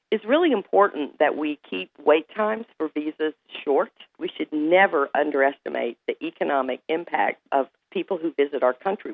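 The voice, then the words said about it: American southern accent. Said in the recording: “as you can probably hear from my southern accent, I actually hail from the South. I'm from Florida.”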